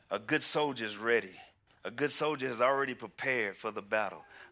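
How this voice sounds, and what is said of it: Southern US drawl. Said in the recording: “My wife says I got a southern drawl.”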